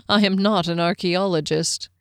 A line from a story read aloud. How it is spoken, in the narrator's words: he chuckled